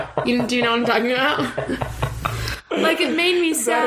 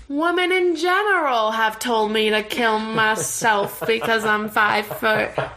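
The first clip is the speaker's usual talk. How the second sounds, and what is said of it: Old black-and-white movie villain voice. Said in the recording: “Is that his accent? ... You sound like the antagonist in a like an old black and white movie ... those microphones that you get at the dollar store and they like give your phone an echoey thing”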